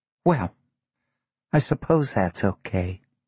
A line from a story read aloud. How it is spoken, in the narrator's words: she said quietly